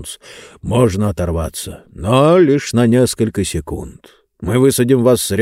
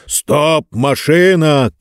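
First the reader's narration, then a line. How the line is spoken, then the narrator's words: Shouting. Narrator (Russian): крикнул Джонс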